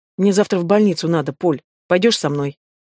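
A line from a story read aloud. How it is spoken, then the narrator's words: Quiet question. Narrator (Russian): тихо спросила Ленка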